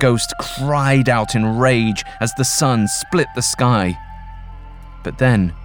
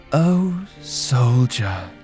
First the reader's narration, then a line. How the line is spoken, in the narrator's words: sighed